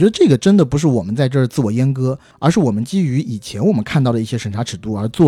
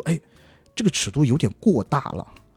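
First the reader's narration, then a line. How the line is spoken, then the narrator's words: Doubtful muttering. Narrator (Chinese): 我阿甘其实心里就犯嘀咕，就说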